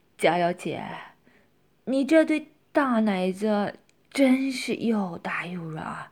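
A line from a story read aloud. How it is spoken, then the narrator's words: Drunken, leering laugh. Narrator (Chinese): 喝了酒的李明，色心跟胆子又大了起来，淫笑着对佳瑶说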